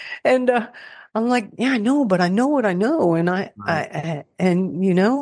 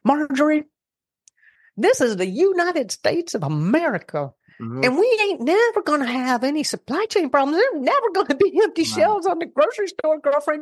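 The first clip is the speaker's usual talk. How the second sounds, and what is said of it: Imitated Texan accent. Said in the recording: “she classic Texan, and I'm going to try and do my best I can with her accent.”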